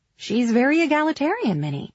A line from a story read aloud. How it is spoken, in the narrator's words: she said brightly